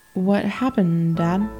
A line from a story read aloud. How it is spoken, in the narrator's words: I asked hesitantly